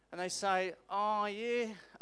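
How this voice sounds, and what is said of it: Put-on outback Australian accent. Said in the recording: “I don't know why I just did that accent. ... I just channeled, like, outback Queensland or something.”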